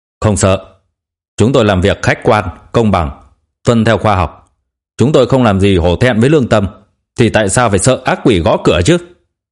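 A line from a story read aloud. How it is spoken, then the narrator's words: Raised voice. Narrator (Vietnamese): cao giọng nói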